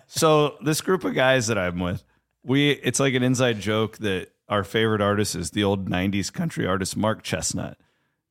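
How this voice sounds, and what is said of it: Hoarse voice. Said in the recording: “I am hoarse.”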